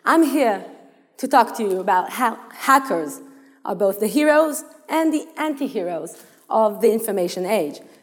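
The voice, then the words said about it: Noticeable foreign accent. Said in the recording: “The rest of you can't understand my accent.”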